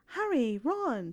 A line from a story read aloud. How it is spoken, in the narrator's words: she greeted them cheerfully